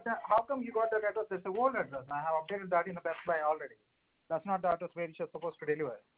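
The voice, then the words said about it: Accented speech, hard to understand. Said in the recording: “I'm not able to understand you due to your accent. Can you slow down for me, please?”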